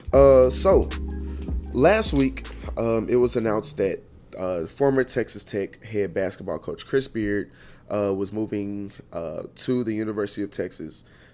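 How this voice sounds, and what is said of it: Slightly raspy voice. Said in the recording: “my voice sounds a little raspy”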